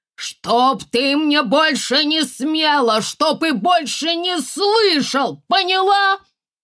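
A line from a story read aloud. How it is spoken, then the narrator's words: Shouted. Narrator (Russian): он кричал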